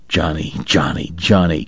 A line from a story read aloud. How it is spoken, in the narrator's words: Kate muttered